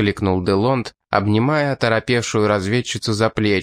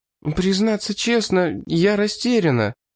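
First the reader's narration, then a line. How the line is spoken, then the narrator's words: Girl's faltering murmur. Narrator (Russian): пролепетала девушка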